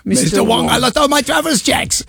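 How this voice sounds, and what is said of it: Put-on accent. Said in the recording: “I wasn't going to do the accent, but I'm so thrilled for you that you have stepped over that line.”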